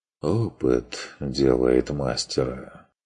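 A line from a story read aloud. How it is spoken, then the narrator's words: Sighing. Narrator (Russian): вздохнул фон Вегерхоф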